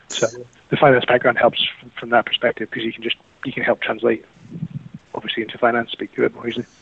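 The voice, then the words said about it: Softened New Zealand accent. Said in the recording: “I had a Kiwi accent up until recently. Weirdly, this is actually a really softened version of the accent where I'm from.”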